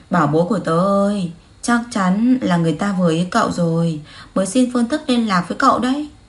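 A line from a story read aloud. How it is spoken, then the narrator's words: Sighing. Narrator (Vietnamese): Đường Tiếu thấy Tô Đàm tỏ vẻ phiền toái, cô nàng thở dài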